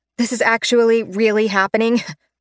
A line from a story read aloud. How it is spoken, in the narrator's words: I laugh, unable to stop myself in time